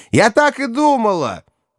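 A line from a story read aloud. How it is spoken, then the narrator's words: Shouted right into ear. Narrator (Russian): Рахиль уже прямо в ухо прокричала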